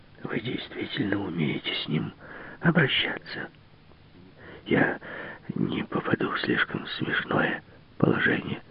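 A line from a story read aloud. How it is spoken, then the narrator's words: Anxious whisper. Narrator (Russian): сказал Бейль и, понизив голос до шепота, встревоженно спросил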